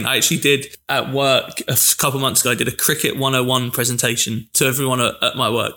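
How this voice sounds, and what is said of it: English accent. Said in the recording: “as you can tell from his accent, grown up in England”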